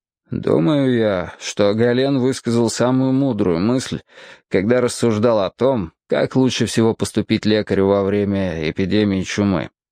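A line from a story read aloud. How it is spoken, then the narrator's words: Grim. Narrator (Russian): мрачно сказал Сулейман Аль-Джамал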